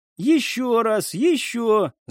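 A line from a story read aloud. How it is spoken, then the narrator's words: Shout. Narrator (Russian): закричала Элина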